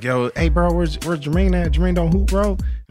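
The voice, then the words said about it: Imitates another person's voice. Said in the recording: “Do that impression again. That's pretty good.”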